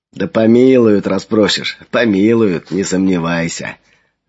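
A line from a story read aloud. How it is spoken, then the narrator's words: Laughing. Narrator (Russian): рассмеялся Андрюха Флавиан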